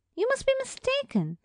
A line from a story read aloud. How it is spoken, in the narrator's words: Miss Barrows exclaimed